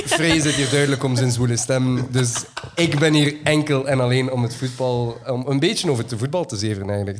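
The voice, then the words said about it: Light West Flemish accent. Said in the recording (Dutch): “licht West-Vlaams accent”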